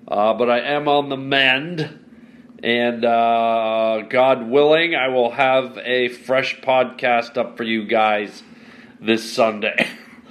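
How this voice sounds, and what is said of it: Sick, congested-sounding voice. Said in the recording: “as you can hear from my voice, yours truly has a wee bit of a bad cold or something”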